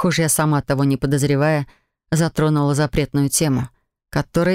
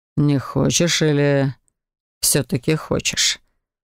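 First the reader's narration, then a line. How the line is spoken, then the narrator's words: Low mesmerizing voice. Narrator (Russian): Все таким же завораживающим низким голосом спросил Лоран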